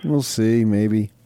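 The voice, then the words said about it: Gloomy, mopey Eeyore-like voice. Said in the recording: “your Eeyore impression?”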